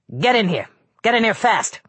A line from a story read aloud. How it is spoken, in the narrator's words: he barked